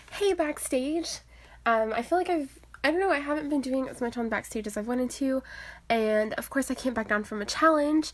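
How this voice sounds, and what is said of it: Stuffy, congested nasal voice. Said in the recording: “I don't know if I sound off. I don't know. My nose is stuffy. ... my nose is still a little bit stuffy, maybe I'm a tad bit off”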